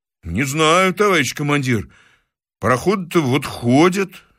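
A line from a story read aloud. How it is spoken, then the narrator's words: Confused mutter. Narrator (Russian): растерянно пробормотал милиционер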